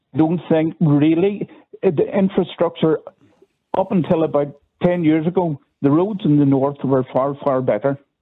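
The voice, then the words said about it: Northern regional accent. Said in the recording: “I'm from the north. You can tell by the accent.”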